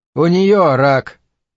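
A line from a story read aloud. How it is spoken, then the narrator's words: Sighing. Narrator (Russian): он вздохнул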